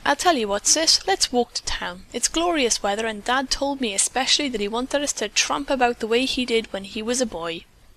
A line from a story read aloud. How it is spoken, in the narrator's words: the lad exclaimed